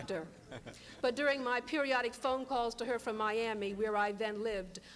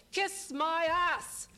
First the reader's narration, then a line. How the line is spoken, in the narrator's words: her shouts of